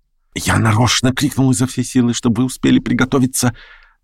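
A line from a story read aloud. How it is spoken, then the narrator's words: Hurried, naive whisper. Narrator (Russian): Торопливо, с удивительной наивностью, прошептал Петр Степанович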